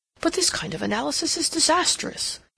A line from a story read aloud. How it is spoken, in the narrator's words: he exclaimed